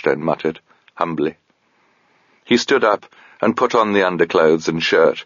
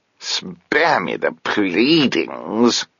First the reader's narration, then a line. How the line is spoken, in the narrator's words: said Mogget, in a disgusted tone